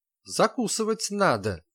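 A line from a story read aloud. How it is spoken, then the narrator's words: Angry declaration. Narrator (Russian): гневно заявило Ее Величество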